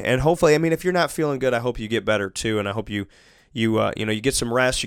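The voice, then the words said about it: Voice altered by sinus trouble. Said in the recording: “this wonderful allergy, sinus, whatever season... My voice sounds a little bit different.”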